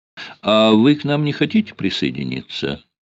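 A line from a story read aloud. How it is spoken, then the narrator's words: Strained polite tone. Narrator (Russian): спросила она, изо всех сил стараясь говорить светски вежливым тоном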